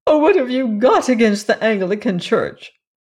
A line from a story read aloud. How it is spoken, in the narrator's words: sobbed